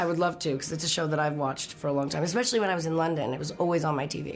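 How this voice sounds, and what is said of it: Usual voice. Nothing is said of it.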